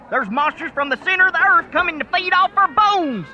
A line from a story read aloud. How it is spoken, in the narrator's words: Dusty yelled